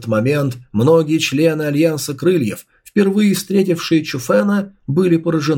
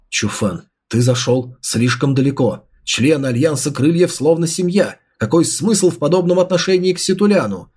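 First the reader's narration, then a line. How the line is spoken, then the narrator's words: Angry. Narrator (Russian): сердито проговорил Ситую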